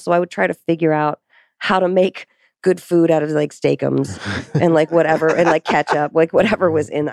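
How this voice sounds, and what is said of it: Hoarse, fading voice. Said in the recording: “I'm losing my voice now. I got to drink some water.”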